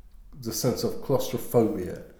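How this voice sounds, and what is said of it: Put-on Scottish accent. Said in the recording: “My Scottish accent just comes up”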